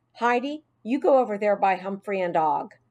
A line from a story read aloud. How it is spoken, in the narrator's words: said firmly